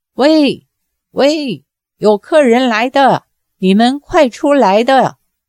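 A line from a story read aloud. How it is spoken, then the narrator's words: Loud shout. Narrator (Chinese): 尼摩星大声叫道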